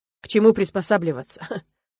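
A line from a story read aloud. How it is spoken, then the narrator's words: Bitter laugh. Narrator (Russian): Он засмеялся горько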